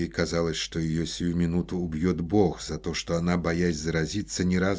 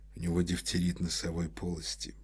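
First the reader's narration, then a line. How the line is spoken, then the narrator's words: In an undertone. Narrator (Russian): сказал он вполголоса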